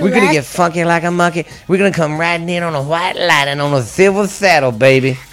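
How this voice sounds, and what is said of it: Imitates another person's voice. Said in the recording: “my Dusty Rhodes impersonation”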